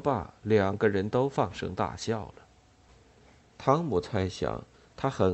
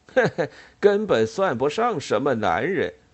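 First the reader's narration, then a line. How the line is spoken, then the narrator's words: Sentry, grinning. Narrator (Chinese): 那哨兵咧嘴一笑，说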